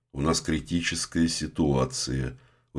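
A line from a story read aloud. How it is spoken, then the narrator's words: Very calm. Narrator (Russian): очень спокойно сказал Вася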